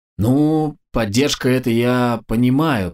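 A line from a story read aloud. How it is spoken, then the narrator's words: Drawn-out drawl. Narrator (Russian): протянула Посадская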